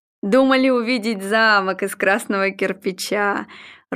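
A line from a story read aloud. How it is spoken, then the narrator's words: Cheerful hearty laughter. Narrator (Russian): Ройтер весело расхохотался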